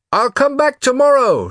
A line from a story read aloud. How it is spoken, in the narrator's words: shouted Bruno to the departing boy